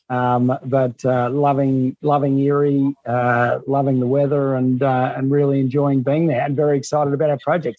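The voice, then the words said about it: Australian accent. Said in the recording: “you can tell from my accent, I'm from Melbourne, Australia”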